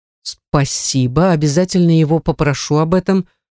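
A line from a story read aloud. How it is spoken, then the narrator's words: Plain. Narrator (Russian): ответила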